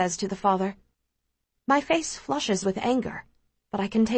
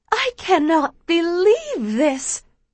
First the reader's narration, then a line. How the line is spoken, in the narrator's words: the mother squeals